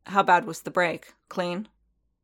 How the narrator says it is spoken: Paz snorted again

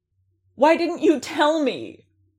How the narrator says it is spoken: Din shouted, his patience gone

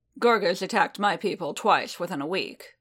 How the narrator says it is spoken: Boba rumbled

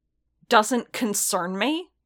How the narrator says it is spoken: Strill snapped back, tone hot

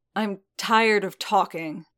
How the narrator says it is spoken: Din snapped

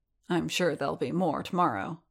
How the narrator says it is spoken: Din muttered

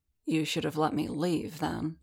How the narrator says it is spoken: Din muttered, voice pitched even lower

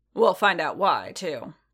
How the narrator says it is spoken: Boba growled

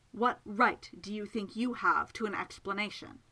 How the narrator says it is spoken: Miss Absalom said fiercely

